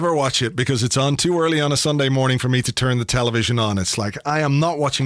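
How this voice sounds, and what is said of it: Usual voice. Nothing is said of it.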